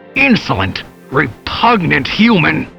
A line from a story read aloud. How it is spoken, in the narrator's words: he shouted, his voice more static than words